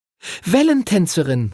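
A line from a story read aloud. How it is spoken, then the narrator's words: Called out. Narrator (German): rief Lucy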